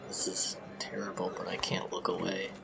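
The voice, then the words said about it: Whispering. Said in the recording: “whisper”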